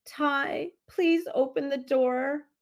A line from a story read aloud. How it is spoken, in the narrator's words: Aubrey pleaded